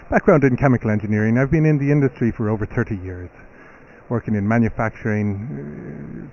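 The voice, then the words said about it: Irish accent. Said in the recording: “I'm originally from Ireland, as you can tell from my accent... Good Irish accent.”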